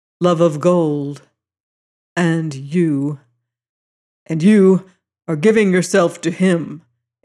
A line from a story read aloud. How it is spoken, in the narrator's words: it said sternly